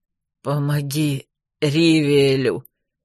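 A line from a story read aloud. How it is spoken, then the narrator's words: Hoarse rasp. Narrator (Russian): прохрипел он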